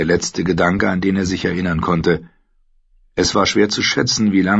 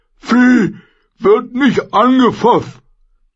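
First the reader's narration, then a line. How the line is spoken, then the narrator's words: Bellowing goat, spitting. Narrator (German): brüllte die Ziege und besprühte mit Speichel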